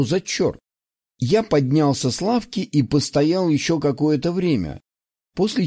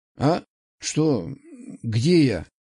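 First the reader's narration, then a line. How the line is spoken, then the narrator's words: Startled, sleepy. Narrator (Russian): Встрепенулся сонно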